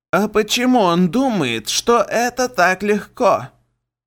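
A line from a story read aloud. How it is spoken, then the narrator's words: Creaky rat voice. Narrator (Russian): проскрипел крыс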